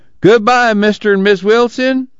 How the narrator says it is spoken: Pa called out

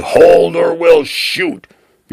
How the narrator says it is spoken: A pair of armed guards that yelled

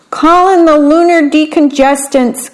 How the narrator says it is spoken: cried the little alien

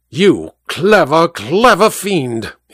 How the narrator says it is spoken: he snarled

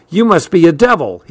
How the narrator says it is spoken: he cried out

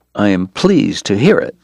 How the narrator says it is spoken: Doc said tightly

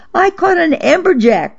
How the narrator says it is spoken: I shouted from the boat to Fran

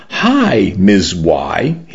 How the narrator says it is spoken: he said brightly

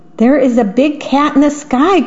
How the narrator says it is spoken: cried the little mouse

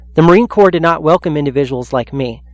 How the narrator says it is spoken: Capers said

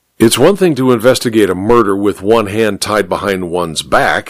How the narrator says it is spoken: he grumbled unhappily

